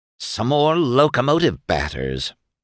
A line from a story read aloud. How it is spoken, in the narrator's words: Candy snorted